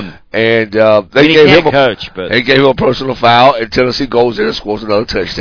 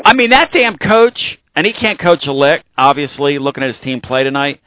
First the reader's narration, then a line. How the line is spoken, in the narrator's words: he snapped